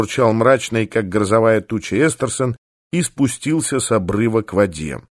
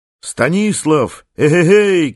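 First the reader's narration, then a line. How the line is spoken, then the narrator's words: Shout. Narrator (Russian): крикнул Эстерсон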